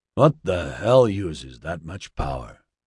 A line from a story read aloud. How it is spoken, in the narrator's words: Oscar muttered